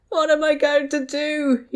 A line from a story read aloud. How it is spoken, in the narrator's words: he wailed